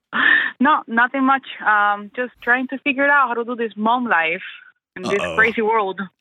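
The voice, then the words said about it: Speaks with an accent. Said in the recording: “sorry for my accent... Never, ever apologize for your accent. Ever. It's beautiful.”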